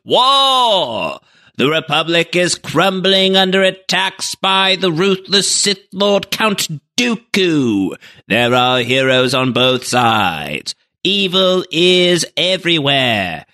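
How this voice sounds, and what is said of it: Old-timey announcer voice. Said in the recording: “my best Clone Wars old-timey announcer voice.”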